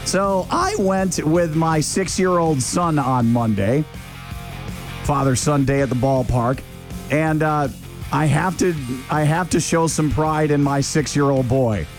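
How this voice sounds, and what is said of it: Hoarse voice. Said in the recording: “my voice is so hoarse from all the yelling and screaming, and also from all of the trash talking”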